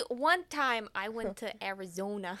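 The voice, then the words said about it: Odd, alien-like put-on accent. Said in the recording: “I don't know what accent you're doing. That's like if an alien came down from space and was like, I am human.”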